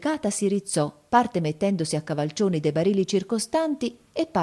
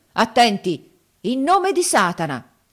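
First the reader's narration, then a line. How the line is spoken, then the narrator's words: Solemn shout. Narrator (Italian): gridò poi con aria solenne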